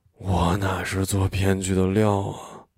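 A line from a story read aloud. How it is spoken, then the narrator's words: Sighing, tipsy voice. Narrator (Chinese): 秦爱一声叹息，声音带着酒精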